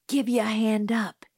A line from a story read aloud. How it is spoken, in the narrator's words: he muttered to Dill